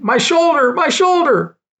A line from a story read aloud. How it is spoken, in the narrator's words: I started screaming